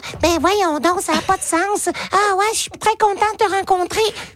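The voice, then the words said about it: Cartoon character voice. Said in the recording (French): “faire la voix du personnage, ou comme je fais la voix de tous les personnages ... parler comme ça”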